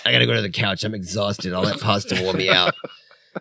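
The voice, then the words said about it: Faded German accent, sounds New York Bronx. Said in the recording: “yeah, I'm German, but it's like now it sounds more like I'm from, like, you know, the Bronx or whatever ... my accent faded over time”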